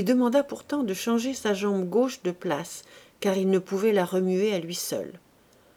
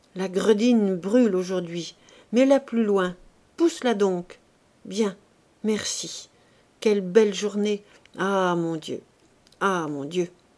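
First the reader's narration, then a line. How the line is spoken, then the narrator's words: Unconscious moaning. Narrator (French): il continua de gémir sans en avoir conscience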